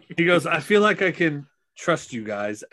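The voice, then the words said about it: Character voice in Cockney accent. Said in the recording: “I don't know why I'm doing a cockney accent.”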